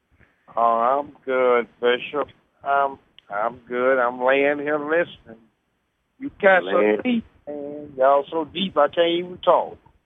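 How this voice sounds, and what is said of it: Slow Southern drawl. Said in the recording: “that slow southern drawl you got there”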